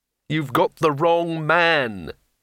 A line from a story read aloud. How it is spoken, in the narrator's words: he moaned